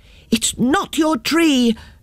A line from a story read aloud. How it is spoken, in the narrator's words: shouted the children